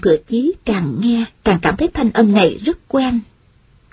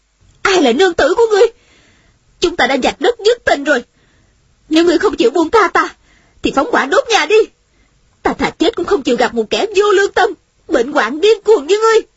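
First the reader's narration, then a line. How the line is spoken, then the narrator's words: Angry woman. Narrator (Vietnamese): Nữ nhân trong nhà giận dữ nói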